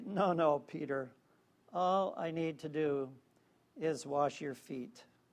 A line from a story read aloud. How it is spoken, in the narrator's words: Jesus just sort of smile and chuckle and say